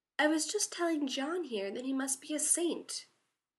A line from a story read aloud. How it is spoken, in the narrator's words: Sam said sweetly